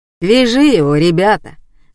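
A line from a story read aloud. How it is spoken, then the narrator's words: Calm command. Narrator (Russian): спокойно велел Василий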